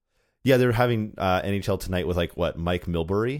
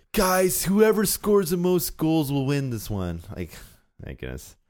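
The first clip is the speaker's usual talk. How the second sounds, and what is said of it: Imitates another person's voice. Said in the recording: “That's a really great Mike Milbury impersonation.”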